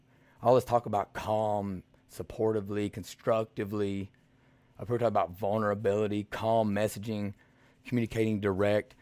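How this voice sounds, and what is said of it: Slight redneck accent. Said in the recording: “somebody like me starts talking, that's got a little redneck accent”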